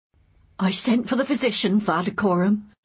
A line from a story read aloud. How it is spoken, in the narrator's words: said the woman shakily